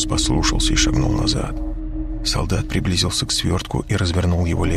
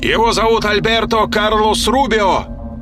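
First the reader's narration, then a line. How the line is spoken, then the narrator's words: Shout. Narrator (Russian): закричал Росс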